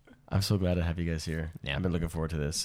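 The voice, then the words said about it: Hoarse voice. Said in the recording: “My voice is a little... after the weekend, it just gets hoarse”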